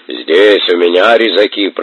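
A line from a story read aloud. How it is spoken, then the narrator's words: Booming drone. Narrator (Russian): прогудел диакон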